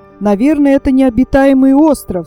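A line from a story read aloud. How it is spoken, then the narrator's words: Delighted exclamation. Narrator (Russian): с восторгом воскликнул Тони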